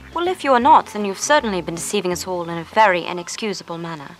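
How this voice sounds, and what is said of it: Passable put-on English accent. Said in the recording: “doing a quite passable English accent”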